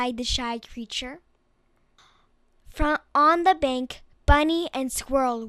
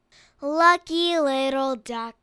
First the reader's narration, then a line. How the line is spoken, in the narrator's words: they sighed